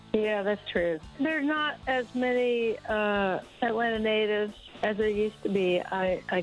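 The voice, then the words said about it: Southern American accent. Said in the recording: “you have such a beautiful Southern accent”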